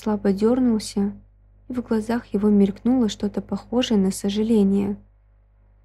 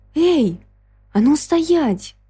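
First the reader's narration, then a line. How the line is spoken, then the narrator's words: Shouted after someone leaving. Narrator (Russian): крикнула в исчезающую в глубине квартиры широкую спину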